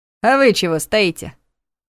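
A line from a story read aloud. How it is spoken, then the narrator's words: Challenging tone. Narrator (Russian): вызывающим тоном поинтересовался Егор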